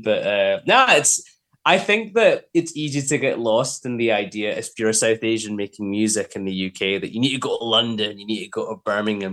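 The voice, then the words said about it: Scottish accent. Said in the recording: “to have a Scottish accent”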